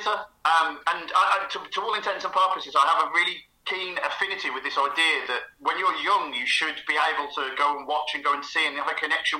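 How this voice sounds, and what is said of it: Birmingham accent. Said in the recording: “keen listeners will know that my accent, Birmingham City... I knew it was Birmingham.”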